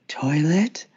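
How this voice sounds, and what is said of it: Confused-sounding imitated character voice. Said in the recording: “pick just one word out of that sentence and sound really confused ... That's a really good impression.”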